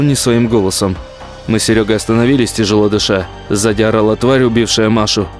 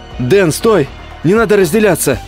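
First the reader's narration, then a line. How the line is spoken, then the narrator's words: Warning shout. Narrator (Russian): предостерегающе крикнул я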